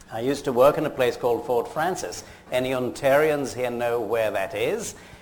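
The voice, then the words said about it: British accent. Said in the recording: “as you worked out from my accent, in Britain. I'm an Edinburgh graduate.”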